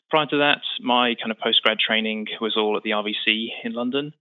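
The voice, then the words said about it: British English accent. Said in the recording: “as you can tell from the accent, I'm not originally from New York. We moved from the UK”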